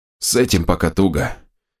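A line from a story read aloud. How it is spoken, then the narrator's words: Slightly hoarse. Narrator (Russian): чуть осипшим голосом продолжил он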